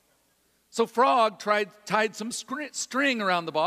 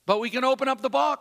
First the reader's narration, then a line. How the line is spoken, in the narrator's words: said Toad